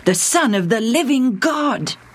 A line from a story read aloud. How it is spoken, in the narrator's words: he exclaimed